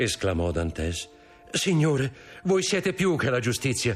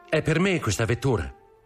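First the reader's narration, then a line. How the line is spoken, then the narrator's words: Plain question. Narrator (Italian): chiese Dantès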